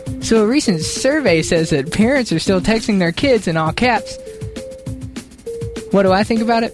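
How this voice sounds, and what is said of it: Impression of a female co-host. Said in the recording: “his amazing impression of you ... It was pretty good.”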